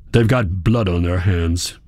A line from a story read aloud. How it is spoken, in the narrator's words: he snapped